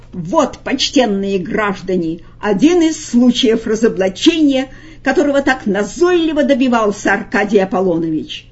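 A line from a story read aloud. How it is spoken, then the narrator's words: Loud shout. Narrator (Russian): Фагот, и он же Коровьев, прокричал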